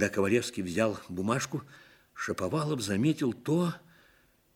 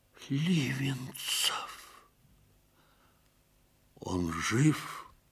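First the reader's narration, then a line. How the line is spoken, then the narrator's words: Quiet question. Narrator (Russian): негромко спросил Ковалевский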